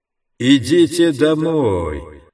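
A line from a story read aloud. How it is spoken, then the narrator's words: Insinuating chanting drone, loudspeakers. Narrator (Russian): нараспев произносил голос из громкоговорителей, как вкрадчивое гудение проповедника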